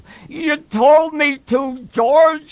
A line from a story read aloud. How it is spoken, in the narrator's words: he said miserably